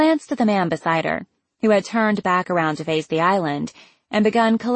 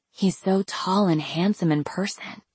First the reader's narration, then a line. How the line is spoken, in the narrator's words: she leaned in to whisper into my ear